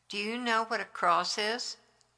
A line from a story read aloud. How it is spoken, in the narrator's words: While sleeping, he was mumbling